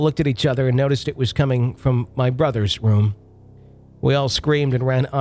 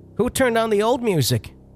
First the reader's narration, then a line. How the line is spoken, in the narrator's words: Jenna yells from the toilet